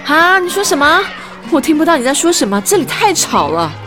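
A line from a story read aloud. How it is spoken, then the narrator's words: Loud sigh. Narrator (Chinese): 艾娃大声叹气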